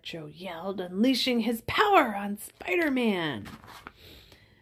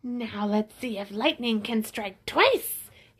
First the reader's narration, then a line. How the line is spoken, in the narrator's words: he snarled